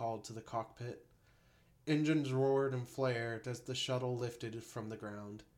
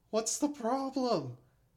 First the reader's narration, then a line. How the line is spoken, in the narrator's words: Hansen wailed